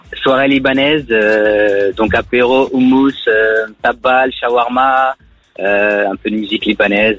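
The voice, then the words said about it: Lebanese accent in French. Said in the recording (French): “T'as l'accent, t'es de chez moi ... d'origine libanaise ... ta voix et ton accent”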